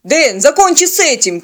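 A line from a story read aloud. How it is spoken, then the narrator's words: Shouted. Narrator (Russian): крикнул пилот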